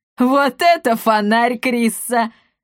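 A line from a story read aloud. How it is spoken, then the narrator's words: Burst of laughter. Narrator (Russian): расхохоталась Каптильда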